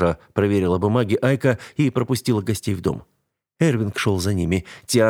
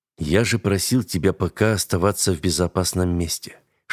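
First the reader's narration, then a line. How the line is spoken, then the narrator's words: Whispered scolding. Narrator (Russian): шепотом отчитывал ее Эрвинг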